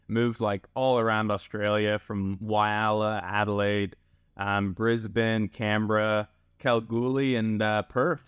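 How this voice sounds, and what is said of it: Canadian accent. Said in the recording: “you've got such a great Canadian accent still”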